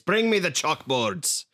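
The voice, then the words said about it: Angry brogue accent. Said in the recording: “the right accent ... real angry brogue”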